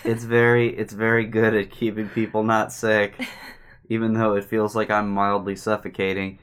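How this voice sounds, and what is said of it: Muffled, sick-sounding voice. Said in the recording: “I'm sick. ... I probably sound like I'm just like a very odd accent away from being Bane.”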